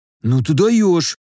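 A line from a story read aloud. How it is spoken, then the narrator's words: Breathed out. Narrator (Russian): выдохнул Рыжий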